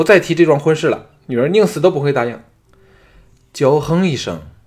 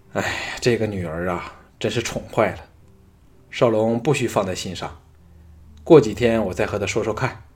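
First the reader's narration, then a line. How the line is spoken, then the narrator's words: Sighing. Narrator (Chinese): 吕不韦 叹道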